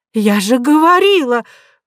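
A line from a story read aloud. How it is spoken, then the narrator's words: Exclaiming. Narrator (Russian): воскликнула Нинеля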